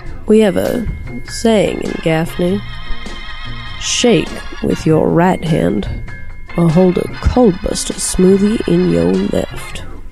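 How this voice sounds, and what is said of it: Frank Underwood impression, Southern drawl. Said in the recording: “my Frank Underwood impression”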